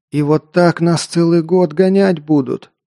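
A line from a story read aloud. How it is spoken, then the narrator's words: Pained groan. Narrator (Russian): простонал Альф, потирая здоровенный кровоподтек на бедре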